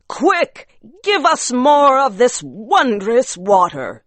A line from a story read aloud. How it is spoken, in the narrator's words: they cried